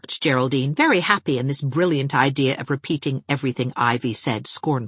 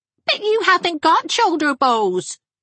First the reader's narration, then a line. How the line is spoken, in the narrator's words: squeaked Geraldine